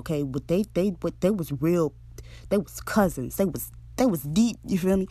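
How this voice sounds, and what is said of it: Casual modern-day slang dialect. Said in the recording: “I'm going to give it to you in modern day, you know, dialect”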